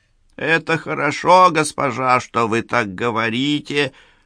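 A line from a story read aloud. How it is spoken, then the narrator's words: Toothless mumble. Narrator (Russian): прошамкала она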